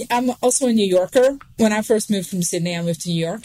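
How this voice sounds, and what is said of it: Australian accent. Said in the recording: “you having an Australian accent”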